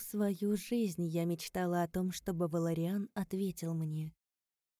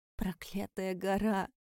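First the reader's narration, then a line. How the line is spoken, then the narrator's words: Hoarse rasp. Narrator (Russian): прохрипела я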